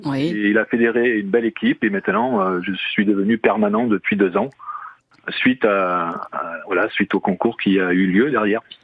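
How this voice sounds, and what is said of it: Light southern French accent. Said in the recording (French): “Avec un petit accent là ... J'arrive du sud de la France au départ.”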